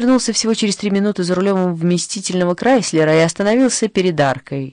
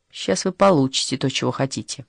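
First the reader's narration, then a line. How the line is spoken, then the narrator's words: Mumbling. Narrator (Russian): Лукас зашагал прочь, бормоча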